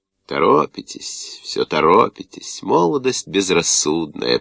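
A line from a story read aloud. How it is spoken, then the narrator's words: Silky voice. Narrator (Russian): произнес он своим знаменитым шелковым голосом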